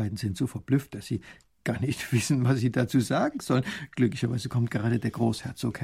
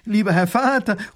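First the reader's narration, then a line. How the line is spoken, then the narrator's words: Calling out. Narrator (German): ruft die Prinzessin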